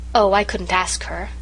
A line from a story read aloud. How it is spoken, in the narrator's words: sighed Irene